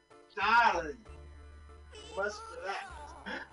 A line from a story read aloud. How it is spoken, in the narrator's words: Sophia Rheingold gasps